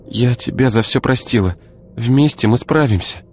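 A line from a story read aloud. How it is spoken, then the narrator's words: Sobbing reply. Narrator (Russian): всхлипнула в ответ Ира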